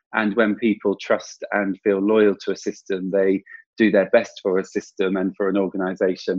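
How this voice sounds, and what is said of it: English accent. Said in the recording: “It doesn't sound quite the same in an English accent”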